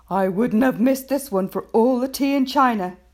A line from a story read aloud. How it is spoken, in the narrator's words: Sergeant Samways said